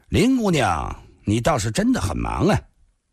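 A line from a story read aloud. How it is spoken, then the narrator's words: Cold young man. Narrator (Chinese): 蓝山少年冷冷地说道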